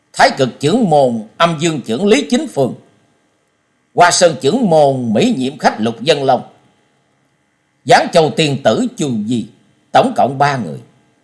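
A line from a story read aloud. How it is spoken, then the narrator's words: Loud repetition. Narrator (Vietnamese): Trần Lâm to tiếng lặp lại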